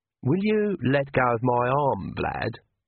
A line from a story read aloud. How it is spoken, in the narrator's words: said Agnes sweetly